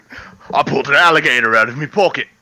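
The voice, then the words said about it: Bad Australian accent, sounds Cockney. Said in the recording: “That was England. That was fucking Cockney. ... We are terrible at doing accents.”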